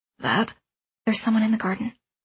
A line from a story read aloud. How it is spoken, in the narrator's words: I interrupted as quietly as I could